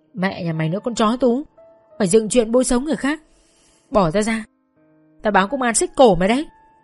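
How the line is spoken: Shouting. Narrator (Vietnamese): chỉ có thể hét lên

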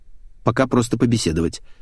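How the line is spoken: Quick reply. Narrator (Russian): быстро ответил я

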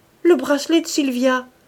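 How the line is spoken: Astonished exclamation. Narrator (French): s'écria-t-il avec étonnement

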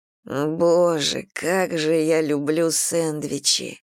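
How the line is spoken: Hoarse wheeze. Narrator (Russian): прохрипела Мэгги, держась за живот

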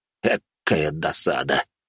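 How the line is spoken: Sighing. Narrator (Russian): вздохнул Анатольевич

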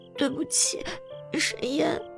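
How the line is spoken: Composed after crying. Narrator (Chinese): 已经止住了哭泣，清了清嗓子

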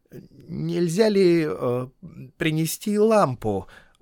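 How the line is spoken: Timid question. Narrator (Russian): робко спросил Бильбо

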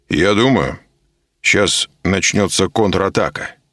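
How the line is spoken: Calm. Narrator (Russian): спокойно промолвил Коля

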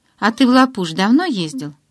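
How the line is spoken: Plain question. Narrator (Russian): спросил Майк

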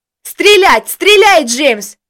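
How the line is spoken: Full-voiced yell. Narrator (Russian): Во весь голос заорал Костя

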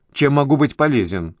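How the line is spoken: Irritated man asking. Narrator (Russian): раздраженно спросил мужчина

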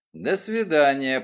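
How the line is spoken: Grumbling mutter. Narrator (Russian): пробурчал Мейсон

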